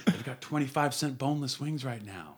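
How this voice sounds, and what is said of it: Whispering. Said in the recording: “I'm going to whisper.”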